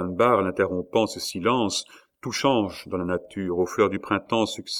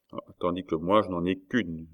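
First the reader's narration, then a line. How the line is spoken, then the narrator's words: Murmur. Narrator (French): murmura Cornelius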